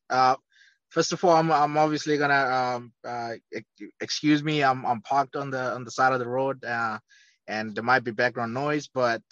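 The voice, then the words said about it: Speaks with a noticeable accent. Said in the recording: “I know our listeners have heard that accent.”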